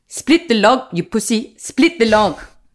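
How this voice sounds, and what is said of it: Put-on South African accent. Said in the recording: “So I got very into South African for a while. I'm not very good at it, but I really like it. ... I have to hit my consonants a bit harder.”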